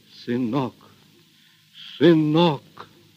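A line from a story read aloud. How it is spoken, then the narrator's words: Choked repetition. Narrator (Russian): Григорий сдавленным голосом твердил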